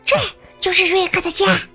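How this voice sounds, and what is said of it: Whispering, quiet voice. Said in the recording (Chinese): “小声”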